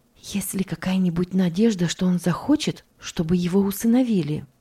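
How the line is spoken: Low-voiced question. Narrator (Russian): Госпожа Рангин спросила вполголоса

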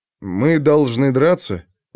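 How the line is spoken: Uncertain question. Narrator (Russian): неуверенно уточнил он у Архидама

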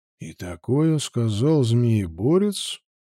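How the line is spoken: Muttered. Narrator (Russian): пробормотал Вальтер, но за звоном молота его никто не расслышал

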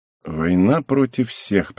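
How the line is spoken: Grumbling. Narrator (Russian): пробурчал я

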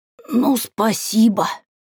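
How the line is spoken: Hoarse, unrestrained. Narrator (Russian): просипела я, не сдержавшись

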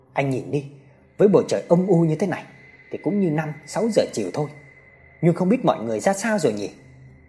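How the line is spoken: Sighing. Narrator (Vietnamese): thở dài

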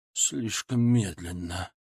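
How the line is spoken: Muttering. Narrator (Russian): пробормотал он

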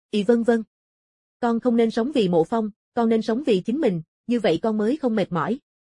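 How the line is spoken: Sighing young woman. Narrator (Vietnamese): Cô gái trẻ thở dài, nói

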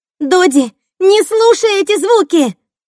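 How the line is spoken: Shouting. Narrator (Russian): кричала Кэсси

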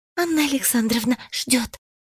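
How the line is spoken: Quick whisper. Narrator (Russian): быстро прошептала

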